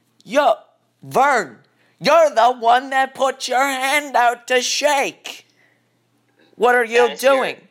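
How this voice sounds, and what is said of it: Old Jewish woman voice impression. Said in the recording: “your impression of my grandma? ... It's my impression of every relatively old Jewish woman.”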